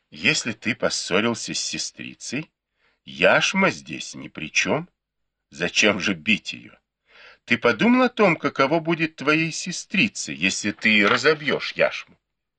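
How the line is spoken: Smiling speech. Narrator (Russian): с улыбкой сказала

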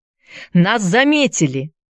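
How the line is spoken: Shouting. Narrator (Russian): закричал Энди

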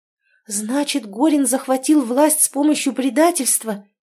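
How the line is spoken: Exclamation. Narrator (Russian): воскликнула Рада

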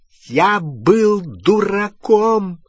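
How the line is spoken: Very loud exclamation. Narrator (Russian): воскликнул Перси так громко, что Люпин чуть не выронил фотографию

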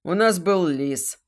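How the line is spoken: Snorting remark. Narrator (Russian): хмыкнул Радомир

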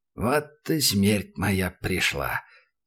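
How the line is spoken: Creaky old man muttering. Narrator (Russian): проскрипел в полголоса, будто бы сам себе старикан

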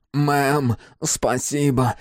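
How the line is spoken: Breathed out. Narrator (Russian): выдохнул Карл

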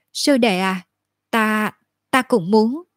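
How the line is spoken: Stammering, hesitant. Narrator (Vietnamese): Lưu Tô lắp bắp, muốn nói lại thôi, do dự một lát rồi mới nói

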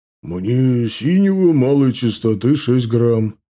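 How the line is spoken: Booming heavy man's voice. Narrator (Russian): прогудел грузный маг в зеленом плаще

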